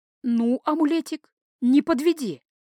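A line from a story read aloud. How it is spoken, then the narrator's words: Silent pleading prayer. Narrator (Russian): Мысленно взмолилась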